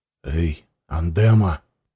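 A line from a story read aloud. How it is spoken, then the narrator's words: Whisper. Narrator (Russian): прошептал Ворлыга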